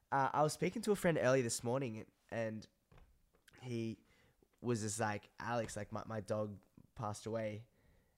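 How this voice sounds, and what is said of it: Congested, hoarse, blocked-nose voice. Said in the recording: “my voice sounds super, super weird at the moment ... my nose is so blocked. I can't even breathe through it. And I've lost my voice as well a little bit”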